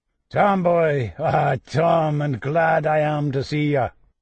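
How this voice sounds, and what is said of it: Old man's voice, faint brogue. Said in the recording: “said an old voice with a faint brogue”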